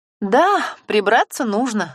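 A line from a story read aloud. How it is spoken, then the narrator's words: Laughing. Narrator (Russian): засмеялась Ксюша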